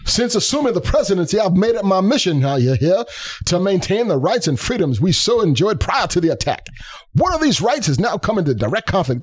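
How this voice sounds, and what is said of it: Foghorn Leghorn, Baptist preacher-like voice. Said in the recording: “Should I do it in a funny accent? ... I'll try my best foghorn leghorn. ... This is not quite Foghorn Leghorn. It's gone more like Baptist preacher.”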